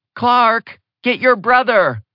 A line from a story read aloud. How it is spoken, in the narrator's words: Victoria hollered